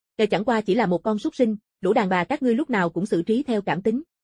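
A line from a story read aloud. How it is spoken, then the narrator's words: Cold. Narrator (Vietnamese): Địch Hung lạnh lùng nói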